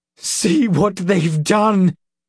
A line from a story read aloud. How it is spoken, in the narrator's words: Ulfgar sobbed